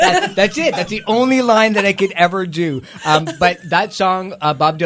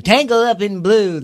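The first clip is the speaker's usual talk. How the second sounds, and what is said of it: Imitates another person's voice. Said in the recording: “whenever I do an impression of Bob Dylan, that's the only line that I do”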